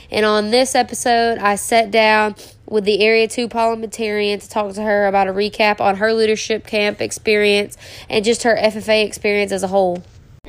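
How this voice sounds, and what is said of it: Slightly nasal, congested voice. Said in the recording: “I am a little sick, so that's probably why I sound a little nasally.”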